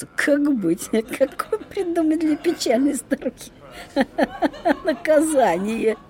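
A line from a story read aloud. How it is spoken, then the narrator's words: Conferring with laughter. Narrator (Russian): Совещались, смеялись при этом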